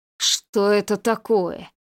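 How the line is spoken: Hissing. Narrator (Russian): зашипел Анциферов

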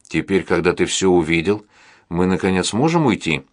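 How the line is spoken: Plain question. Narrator (Russian): спросила Сьюзи

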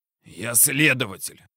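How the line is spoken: Hoarse rasp. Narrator (Russian): прохрипел

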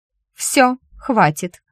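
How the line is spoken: Sharply cut off. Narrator (Russian): резко оборвала танец Зефрида

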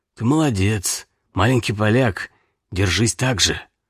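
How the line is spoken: Quiet. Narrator (Russian): тот негромко сказал

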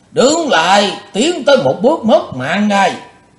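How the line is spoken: Thunderous shout. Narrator (Vietnamese): Lão mắt lộ quát như sấm

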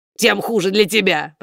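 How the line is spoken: Grumbling. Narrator (Russian): проворчал кот

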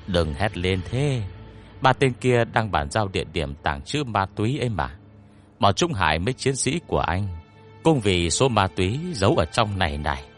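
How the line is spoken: Lowered quiet voice. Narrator (Vietnamese): hạ giọng nói nhỏ

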